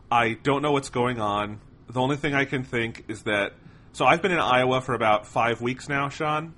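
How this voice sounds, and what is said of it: Sick, congested-sounding voice. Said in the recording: “I have been sick. You can hear it in my voice.”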